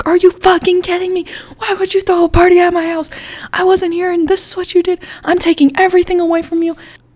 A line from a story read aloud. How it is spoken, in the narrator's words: my mom just starts screaming at me